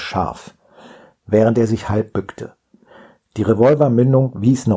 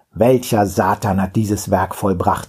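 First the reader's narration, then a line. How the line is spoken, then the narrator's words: Gruff question. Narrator (German): fragte barsch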